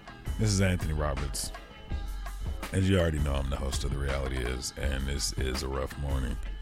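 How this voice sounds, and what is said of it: Slightly hungover-sounding voice. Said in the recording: “If you can't tell by my voice, I am slightly hungover”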